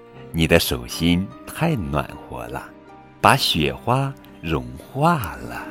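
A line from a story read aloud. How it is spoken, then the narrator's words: Gentle grandmother. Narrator (Chinese): 奶奶温柔地说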